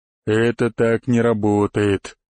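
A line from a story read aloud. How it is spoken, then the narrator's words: Sad growl. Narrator (Russian): с грустью прорычал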